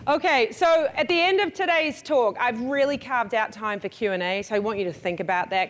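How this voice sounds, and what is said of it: New Zealand accent. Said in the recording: “where's the accent from? I am from New Zealand.”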